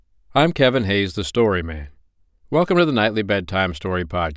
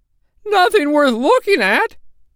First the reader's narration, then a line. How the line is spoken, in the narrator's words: said indignantly